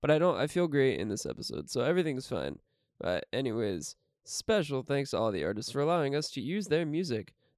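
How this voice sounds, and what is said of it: Voice sounds sick. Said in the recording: “my voice is a little different, and I feel very sick”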